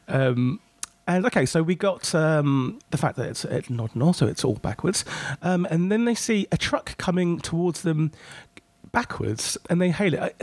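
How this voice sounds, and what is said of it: Croaky voice from a cold. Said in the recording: “I've still got a cold, so if my voice is a bit croaky”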